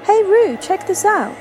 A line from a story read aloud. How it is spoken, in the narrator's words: exclaimed the puppy bear